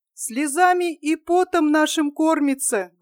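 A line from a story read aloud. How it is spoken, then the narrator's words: Sad mother. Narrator (Russian): грустным голосом ответила мать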